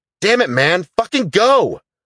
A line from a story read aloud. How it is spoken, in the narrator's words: he shouted